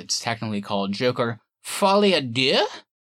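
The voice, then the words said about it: Put-on French accent. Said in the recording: “my French accent ... That's pretty good.”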